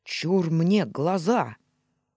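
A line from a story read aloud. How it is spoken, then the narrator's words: Shrieked. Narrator (Russian): Черри, как предводительница, взвизгнула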